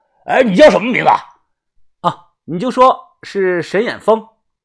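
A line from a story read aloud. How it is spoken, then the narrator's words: Loud shout. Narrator (Chinese): 大声喊我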